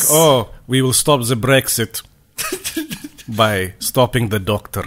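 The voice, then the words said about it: Poor put-on Eastern European accent. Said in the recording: “That's not even an accent. Transylvanian.”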